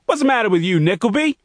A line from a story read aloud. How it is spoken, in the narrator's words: shouted the coach